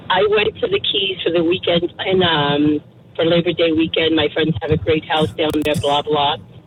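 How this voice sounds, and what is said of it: Hoarse, congested voice. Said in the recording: “sorry about my voice. I have a really bad cold.”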